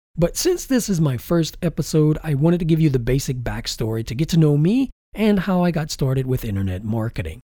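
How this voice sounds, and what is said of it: Slightly congested, funny-sounding voice. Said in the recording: “I have a slight cold, so my voice may sound a little bit funny.”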